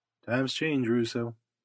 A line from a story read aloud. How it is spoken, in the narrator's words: he answered quietly